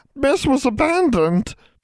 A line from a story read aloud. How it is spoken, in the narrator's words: Triss wailed